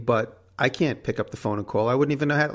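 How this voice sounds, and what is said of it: New York accent. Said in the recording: “She likes my New York ac- accent ... She jokes at my New York accent”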